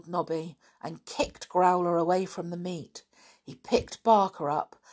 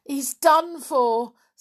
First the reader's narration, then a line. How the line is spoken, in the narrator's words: said the boy in a choking voice